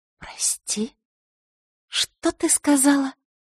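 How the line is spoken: Quiet furious whisper. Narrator (Russian): произнесла она тихим, разъяренным шепотом

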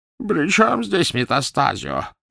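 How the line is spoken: Hoarse rasp. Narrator (Russian): прохрипел

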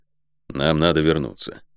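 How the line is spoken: Muffled, hollow reply. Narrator (Russian): глухо ответил Гонор

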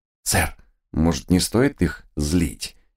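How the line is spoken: Quiet request. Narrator (Russian): Тихо попросил я

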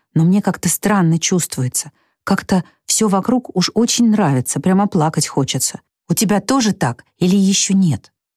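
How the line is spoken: Boy whispering a reply. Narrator (Russian): также шепотом ответил мальчик

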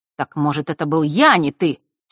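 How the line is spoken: Angry outburst. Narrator (Russian): сердито вырвалось у Фэша

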